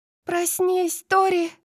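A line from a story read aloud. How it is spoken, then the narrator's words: Desperate scream. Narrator (Russian): отчаянно закричала София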